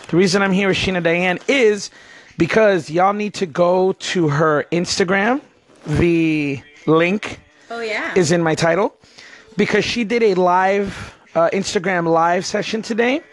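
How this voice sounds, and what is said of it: Hoarse, strained voice. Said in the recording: “you guys will see why I'm always hoarse by the time I get home ... Oh, I can't even talk.”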